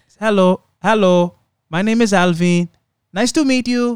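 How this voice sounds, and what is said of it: Put-on French accent in English. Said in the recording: “In English with the accent. ... Don't have to do it in accent. ... because it's French. It's the French.”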